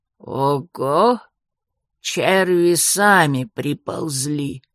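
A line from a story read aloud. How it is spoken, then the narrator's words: Creaky voice. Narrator (Russian): проскрипел Джо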